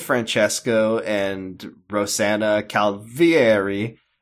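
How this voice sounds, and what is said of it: Slight Italian accent inflection. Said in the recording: “oh, I almost did an Italian accent there. I stopped myself. Did you hear that? Do you hear that inflection? Do you hear that intonation?”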